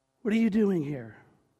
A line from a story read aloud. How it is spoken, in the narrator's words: God gently asks Elijah